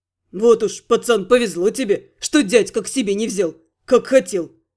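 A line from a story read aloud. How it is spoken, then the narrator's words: Sympathetic snort, thief. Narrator (Russian): Сочувственно хмыкнул вор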